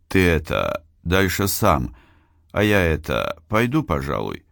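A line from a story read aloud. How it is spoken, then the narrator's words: Hesitant. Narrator (Russian): Дзуно неуверенно помявшись, обратился ко мне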